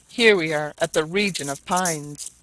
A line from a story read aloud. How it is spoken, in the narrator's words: cried Barbicane